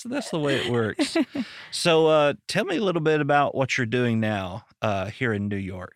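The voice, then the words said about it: Arkansas regional accent. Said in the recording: “fellow Arkansan ... my quote unquote accent ... I'm jealous of your accent”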